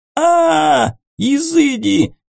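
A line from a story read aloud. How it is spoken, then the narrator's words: Wailing yell. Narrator (Russian): завопил он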